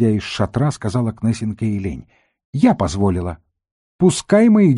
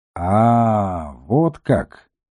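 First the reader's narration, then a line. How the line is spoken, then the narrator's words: Drawled. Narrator (Russian): протянул левый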